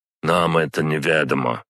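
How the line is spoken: Cold reply. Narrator (Russian): холодно ответил Зорич

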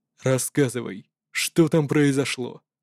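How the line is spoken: Even-voiced question. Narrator (Russian): спросил ровным голосом Сесу

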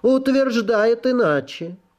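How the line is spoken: Deep warm female voice. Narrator (Russian): Графиня произнесла неожиданно густым и теплым голосом

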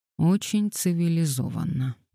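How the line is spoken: Mutter. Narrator (Russian): пробормотал Габриэль

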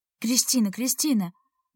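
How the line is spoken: Soft calling. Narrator (Russian): мягко звал меня Алик

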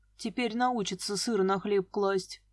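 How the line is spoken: Gloomy. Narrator (Russian): мрачно сказала я

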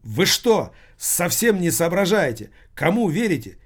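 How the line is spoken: Shouting. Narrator (Russian): кричал Алексей

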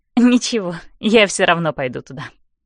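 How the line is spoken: Smirking. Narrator (Russian): усмехаюсь я

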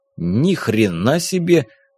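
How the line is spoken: Breathed out. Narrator (Russian): выдохнул Велен

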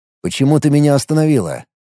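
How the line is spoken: Plain. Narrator (Russian): спросил он

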